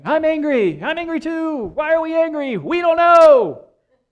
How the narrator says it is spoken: they're shouting

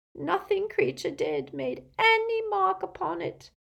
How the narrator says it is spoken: moaned the elf

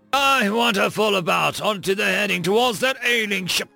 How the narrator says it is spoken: he roared

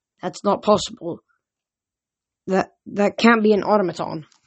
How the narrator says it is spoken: Annabeth said uneasily

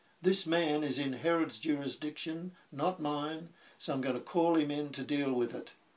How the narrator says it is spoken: He shouted to the crowd

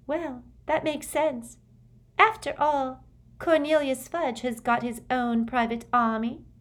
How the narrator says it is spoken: Luna Lovegood, who piped up

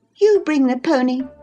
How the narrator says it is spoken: she exclaimed

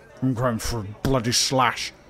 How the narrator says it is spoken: grumbled Ralph

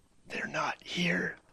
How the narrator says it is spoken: say, a sound that came out like a whisper

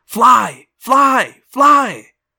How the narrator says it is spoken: The hawk in my head screamed

